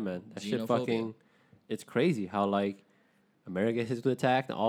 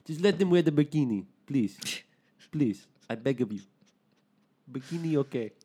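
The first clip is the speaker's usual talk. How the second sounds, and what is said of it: Put-on French accent. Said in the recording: “I'm like really bad at accents, but that one actually came out pretty good ... That's pretty good ... Vietnamese, they did speak a little French”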